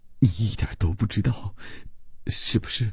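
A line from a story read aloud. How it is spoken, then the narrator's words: Frightened, pleading stammer. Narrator (Chinese): 伯罗姆 吓得 只用哀求的目光结结巴巴地说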